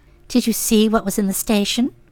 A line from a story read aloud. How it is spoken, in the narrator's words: said, lowering her voice